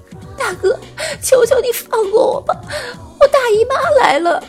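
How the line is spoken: Tearful trembling plea. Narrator (Chinese): 带着哭腔，颤抖哀求

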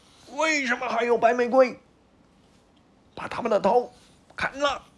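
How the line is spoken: Furious shout. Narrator (Chinese): 皇后来到广场，看到几朵白玫瑰，马上吼起来

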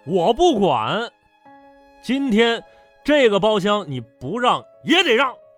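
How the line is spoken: Aggressive shouting. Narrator (Chinese): 直接大喊着

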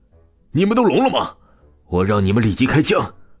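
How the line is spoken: Sinister furious roar. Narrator (Chinese): 江墨阴厉的出声道，厉声朝着这些下属吼道

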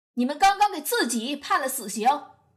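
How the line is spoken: Loud reply. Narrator (Chinese): 帕特丽夏·考文可高声回应道

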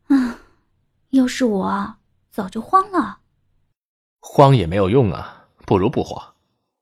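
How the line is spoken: Sighing. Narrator (Chinese): 茉莉叹了一口气

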